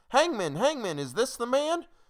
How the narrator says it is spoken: we cried again

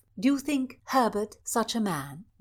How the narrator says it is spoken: Mildred asked

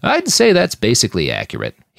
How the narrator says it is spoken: he chuckled

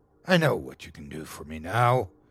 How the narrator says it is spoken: he said in a dark, condescending tone

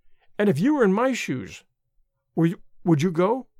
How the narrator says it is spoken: I stammered

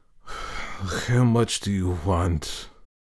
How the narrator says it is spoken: he asked in a weak voice

